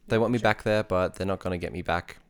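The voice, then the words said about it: British accent. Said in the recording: “British accent ... my British accent”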